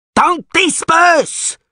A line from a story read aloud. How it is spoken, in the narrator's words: Sivril roared